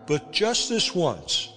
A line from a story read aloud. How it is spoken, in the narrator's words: I pleaded